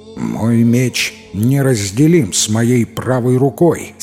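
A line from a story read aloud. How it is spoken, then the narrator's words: Plain. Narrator (Russian): сказал Татул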